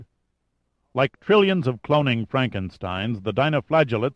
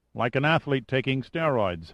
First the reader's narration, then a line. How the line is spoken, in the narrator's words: Giordino said dryly